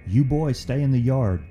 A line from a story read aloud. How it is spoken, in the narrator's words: Uncle Rick shouted authoritatively